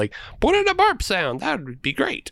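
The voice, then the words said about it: Imitates another person's voice, slightly whiny. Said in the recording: “terrible Lloyd Kaufman impression ... No, spot on ... you just needed to sound a little bit more whiny”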